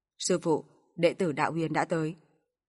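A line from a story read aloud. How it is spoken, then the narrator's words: Hesitant, then raised voice. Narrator (Vietnamese): Hắn nhíu mày, có lẽ hơi do dự, một lúc sau mới cao giọng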